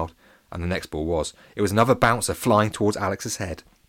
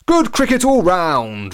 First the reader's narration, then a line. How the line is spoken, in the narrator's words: roared Robbie Dobbins